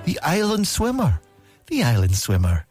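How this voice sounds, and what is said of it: Scottish accent impression of Lorraine Kelly. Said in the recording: “But she's Scottish, right? ... Do you want me to do the accent? ... Lorraine Kelly”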